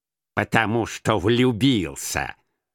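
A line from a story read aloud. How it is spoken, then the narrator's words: Contemptuous grumble. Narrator (Russian): проворчал Скрудж с таким презрением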